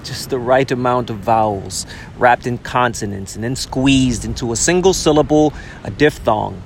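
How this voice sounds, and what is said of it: Southern twang accent. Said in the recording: “My southern twang”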